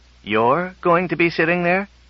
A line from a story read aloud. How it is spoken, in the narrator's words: exclaimed Bogert